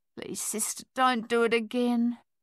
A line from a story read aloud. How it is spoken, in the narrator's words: the soldier pleaded almost inaudibly